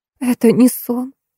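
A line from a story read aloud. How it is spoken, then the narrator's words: Whisper with strange sob. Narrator (Russian): прошептала девушка и, странно всхлипнув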